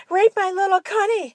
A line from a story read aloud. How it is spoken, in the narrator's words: Susie screamed